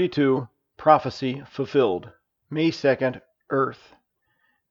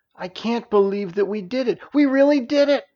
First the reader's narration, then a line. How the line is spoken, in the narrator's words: exclaimed Narayana / Nancy